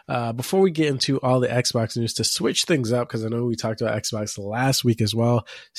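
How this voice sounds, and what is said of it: Sick, slightly off-sounding voice. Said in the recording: “I'm a little bit under the weather. My voice is going to sound a little weird.”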